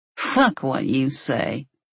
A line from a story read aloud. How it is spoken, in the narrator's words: Beardsley sneered